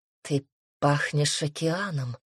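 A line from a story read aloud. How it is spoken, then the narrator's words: Whispered. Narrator (Russian): шепнул Асур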